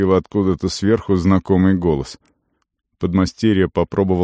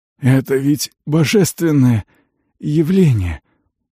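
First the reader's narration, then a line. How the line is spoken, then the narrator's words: Hoarse rasp. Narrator (Russian): прохрипел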